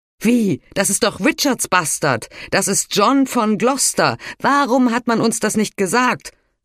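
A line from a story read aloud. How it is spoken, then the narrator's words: Big man calling out. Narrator (German): rief ein großer Mann dem Hauptmann zu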